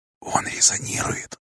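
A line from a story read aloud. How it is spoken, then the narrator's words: Quiet. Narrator (Russian): тихо сообщила Паора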